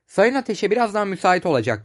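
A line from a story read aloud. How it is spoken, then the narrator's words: Plain. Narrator (Turkish): dedi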